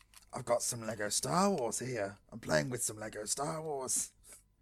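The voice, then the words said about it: Evil cockney child demon voice. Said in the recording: “evil gremlin voice... Evil cockney child demon voice... nightmare fuel”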